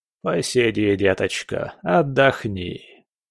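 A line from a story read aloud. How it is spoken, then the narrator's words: Nasty creaky voice. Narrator (Russian): проскрипел он тогда своим противным голосом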